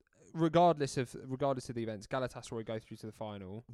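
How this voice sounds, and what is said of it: Swindon accent. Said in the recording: “Why did you say that in a Swindon accent?”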